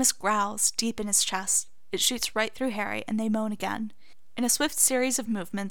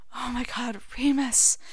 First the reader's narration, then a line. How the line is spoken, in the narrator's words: Harry pants